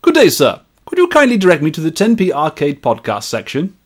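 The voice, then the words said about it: Put-on Victorian gentleman's accent. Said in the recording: “Probably best read in a Victorian gentleman's accent.”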